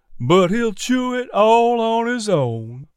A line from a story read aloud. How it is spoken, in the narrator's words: Miss P drawled sarcastically